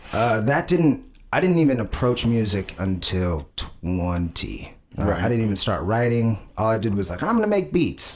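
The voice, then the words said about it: Nasal, deep voice. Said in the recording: “My voice is weird. It's kind of nasally and deep, but it's a weird voice.”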